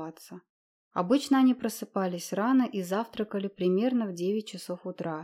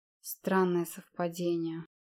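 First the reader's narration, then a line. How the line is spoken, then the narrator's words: Gloomy remark. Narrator (Russian): мрачно заметил Гейтлер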